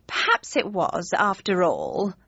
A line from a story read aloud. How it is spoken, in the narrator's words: sighed